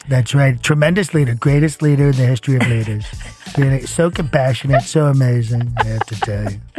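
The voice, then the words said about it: Donald Trump impression. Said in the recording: “teach me how to be Donald Trump ... talking like our dear leader ... you have me in the palm of your hand whenever you do that”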